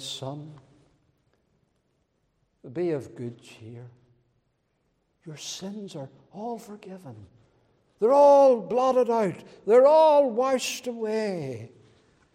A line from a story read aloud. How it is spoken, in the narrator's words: he speaks tenderly, and he says